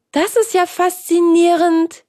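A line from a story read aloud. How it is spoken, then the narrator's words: Calling out. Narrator (German): rief Hans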